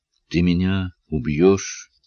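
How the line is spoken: Dull, flat voice. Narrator (Russian): тусклым голосом спросила Джулиана

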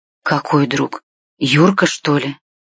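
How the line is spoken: Pale, frightened whisper. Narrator (Russian): Побледнев, прошептала

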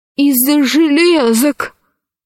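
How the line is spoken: Hoarse wheeze. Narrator (Russian): прохрипел археолог

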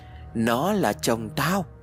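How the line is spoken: Shrill laugh. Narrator (Vietnamese): Bố Hân cất tiếng cười the thé rồi đáp lại

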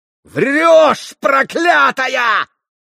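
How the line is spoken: Yelling. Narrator (Russian): завопил Митя

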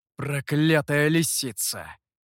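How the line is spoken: Hissed. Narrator (Russian): прошипел Гуэй

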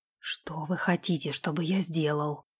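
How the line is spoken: Hoarse question. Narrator (Russian): хрипло спросил он

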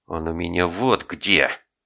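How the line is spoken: Hiss. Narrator (Russian): прошипел тот

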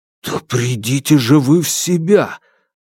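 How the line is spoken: Angry hiss. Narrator (Russian): прошипел он, злясь больше на себя, чем на Александра

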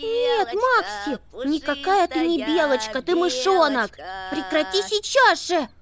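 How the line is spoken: Desperate squeak. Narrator (Russian): Пискнула в отчаянии Амелия

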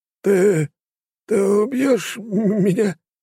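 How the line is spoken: Trembling, near tears. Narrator (Russian): дрожащим голосом, чуть ли не плача, спросил Емельян Сергеевич

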